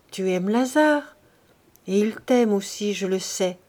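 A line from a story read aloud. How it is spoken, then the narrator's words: Gentle, motherly questioning. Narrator (French): elle lui dit doucement, en mère qui questionne sa fille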